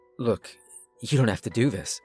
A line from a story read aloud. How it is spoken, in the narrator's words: murmured softly